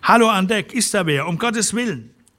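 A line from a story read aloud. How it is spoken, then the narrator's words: Voice drowned by noise. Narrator (German): Das metallische Dröhnen des Weizenstroms verschlang den Laut seiner Stimme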